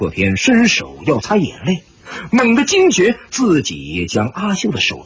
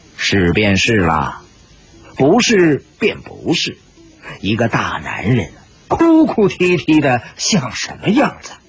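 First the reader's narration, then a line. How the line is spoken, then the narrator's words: Cold remark. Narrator (Chinese): 史婆婆在一边冷冷地说道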